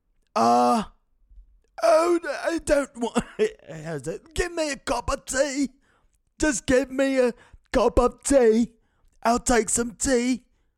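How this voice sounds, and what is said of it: Put-on accent. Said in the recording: “the way that I'm doing my mouth right now just to get the accent. I fucked up at the end. But that's what the accent is”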